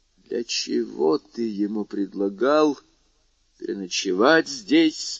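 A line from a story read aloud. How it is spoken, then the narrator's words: Muffled, hollow voice. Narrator (Russian): спросила она глухим голосом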